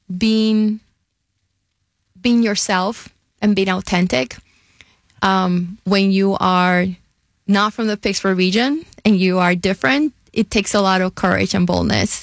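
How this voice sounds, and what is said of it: Puerto Rican accent, not Pittsburgh. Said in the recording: “That's not a Yinzer accent I detect... I have an accent. And I am from Puerto Rico.”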